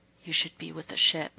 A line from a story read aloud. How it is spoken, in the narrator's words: his voice came out as a barely audible whisper